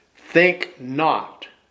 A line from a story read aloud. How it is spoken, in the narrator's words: said